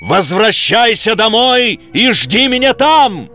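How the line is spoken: Shout. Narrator (Russian): крикнул Телль сыну

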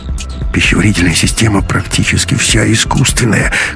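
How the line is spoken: Muttering. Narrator (Russian): бормотал Ковалев

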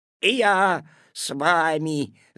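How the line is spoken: Growling. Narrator (Russian): зарычал куцый

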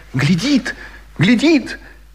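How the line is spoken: Woman's cry. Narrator (Russian): Женщина вскрикнула

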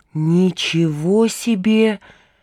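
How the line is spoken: Whisper. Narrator (Russian): прошептал Пашка

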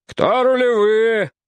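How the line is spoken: Shout. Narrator (Russian): крикнул Крузенштерн

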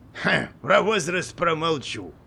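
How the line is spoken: Old dragon's wry snort. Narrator (Russian): хмыкнул дракон, который был намного старше

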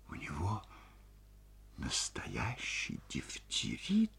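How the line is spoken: Whispered question. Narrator (Russian): спросила шепотом Ольга Ивановна

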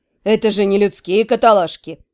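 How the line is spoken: Offended snort, dark elf. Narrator (Russian): оскорбленно фыркнул темный эльф

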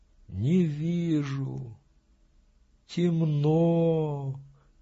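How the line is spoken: Quiet. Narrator (Russian): тихо сказала Вакса

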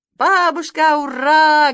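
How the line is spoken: Loud joyful shout. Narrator (Russian): громко и радостно закричал Санька

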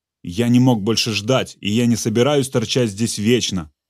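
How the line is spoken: Snapping. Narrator (Russian): огрызнулся маршал

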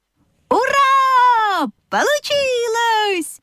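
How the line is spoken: Joyful animal chorus shouting. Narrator (Russian): хором закричали лошадка, овечка и козлята

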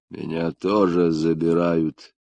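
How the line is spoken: Muffled, dull. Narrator (Russian): глухо проронил

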